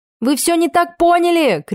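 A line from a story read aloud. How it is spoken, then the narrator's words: Shouting after someone. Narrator (Russian): крикнула вдогонку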